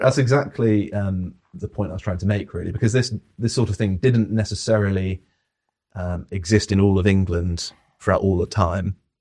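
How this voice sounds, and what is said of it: Received pronunciation with faint Devon accent. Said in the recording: “I can hear the accent there, just about. ... It's funny when people have an overlay of received pronunciation, but there's little things that twang through. ... people can actually pick up on from Devon every now and then”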